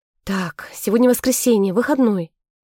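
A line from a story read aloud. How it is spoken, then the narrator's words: Relieved exhale. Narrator (Russian): С облегчением выдохнула Вейн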